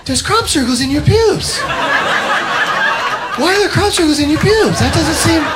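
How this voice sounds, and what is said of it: Imitates another person's voice. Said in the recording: “I can't do a Mark Wahlberg impression. I was going to try to do a Mark Wahlberg impression.”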